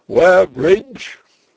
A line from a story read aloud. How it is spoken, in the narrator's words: a voice cried